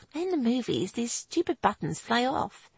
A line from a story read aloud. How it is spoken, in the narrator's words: she mumbled in frustration